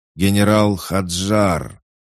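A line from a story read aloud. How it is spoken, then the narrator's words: Huge crowd shouting. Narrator (Russian): сотни тысяч глоток кричали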